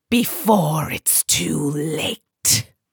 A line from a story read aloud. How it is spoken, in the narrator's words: hissed